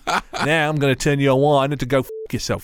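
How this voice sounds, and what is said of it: Poor put-on accent. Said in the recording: “That's a terrible accent.”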